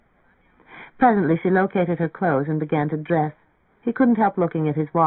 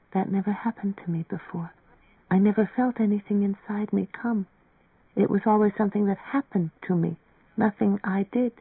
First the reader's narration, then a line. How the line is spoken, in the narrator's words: In a low, timid voice, said